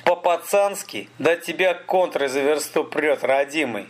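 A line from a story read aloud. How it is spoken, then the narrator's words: Laughing. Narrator (Russian): Столяров засмеялся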